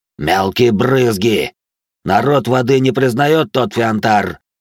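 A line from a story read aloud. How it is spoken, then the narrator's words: Sudden roar. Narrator (Russian): неожиданно взревел Аурвак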